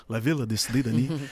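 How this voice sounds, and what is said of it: Imitates another person's accent. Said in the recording (French): “j'ai tendance à vouloir prendre son accent, là.”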